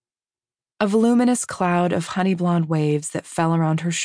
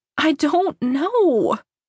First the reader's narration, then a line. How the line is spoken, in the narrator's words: Ursula wailed